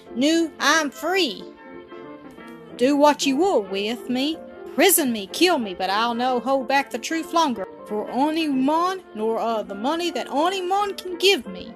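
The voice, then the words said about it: Broad regional dialect accent. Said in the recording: “falling in his excitement into the broad accent of his mother tongue”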